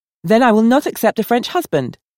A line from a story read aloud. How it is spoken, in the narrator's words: Valda asserted sharply